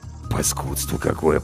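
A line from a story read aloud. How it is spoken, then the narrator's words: Grumbling mutter. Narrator (Russian): пробурчал Зверев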